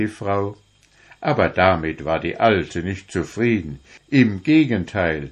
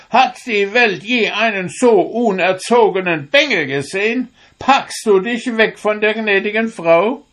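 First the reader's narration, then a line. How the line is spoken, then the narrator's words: Angry old woman shouting. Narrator (German): wurde die Alte recht böse, indem sie rief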